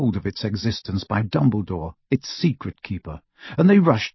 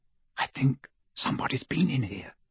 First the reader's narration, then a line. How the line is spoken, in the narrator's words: Hermione whispered